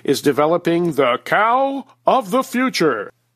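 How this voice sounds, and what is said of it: Announcer-style radio voice. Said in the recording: “in my best radio voice”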